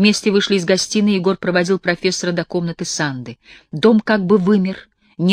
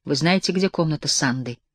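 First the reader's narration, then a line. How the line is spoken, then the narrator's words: Solemn question. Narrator (Russian): спросил он торжественно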